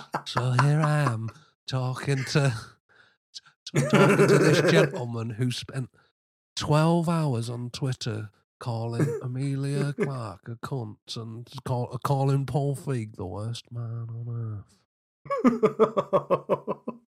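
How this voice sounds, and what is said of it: Good John Rose impression. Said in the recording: “that was a very good John Rose impression”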